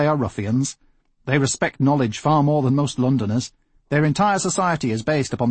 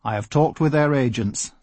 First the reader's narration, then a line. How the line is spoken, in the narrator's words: said Staling calmly